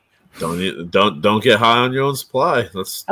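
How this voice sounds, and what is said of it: Tony Montana movie character impression. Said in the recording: “Tony Montana impersonations”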